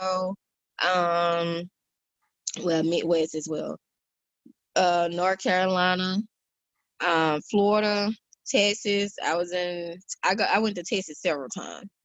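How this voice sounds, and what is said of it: Faint Southern country accent. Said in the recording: “your country accent is fighting to hang on”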